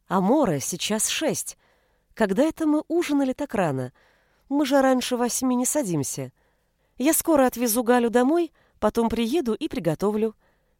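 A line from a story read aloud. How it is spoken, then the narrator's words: Cheerful reply. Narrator (Russian): весело ответила Анита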